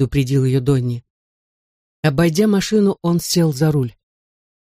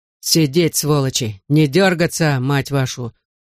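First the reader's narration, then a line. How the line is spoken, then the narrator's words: Growling. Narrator (Russian): прорычал Донни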